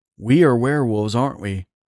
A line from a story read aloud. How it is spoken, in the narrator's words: I asked Aikido